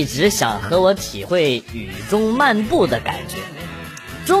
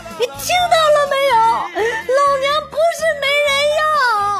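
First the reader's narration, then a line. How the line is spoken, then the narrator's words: Tearful shouting. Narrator (Chinese): 女孩两眼泪水夺眶而出，对着手机大喊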